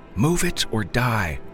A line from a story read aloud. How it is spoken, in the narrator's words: Ronnie yelled